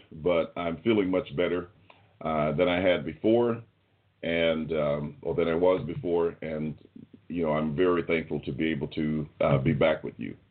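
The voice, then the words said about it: Voice sounding ill. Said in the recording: “I am yet ill. You can still hear that in my voice, perhaps a little bit. And I might go into a coughing spell”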